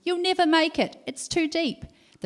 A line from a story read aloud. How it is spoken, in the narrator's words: they began shouting to their friends